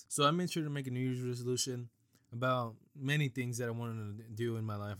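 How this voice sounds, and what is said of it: Congested, weakening voice from a cold. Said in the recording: “I have a very bad cold right now. I can feel that my voice is starting to go away, give out on me.”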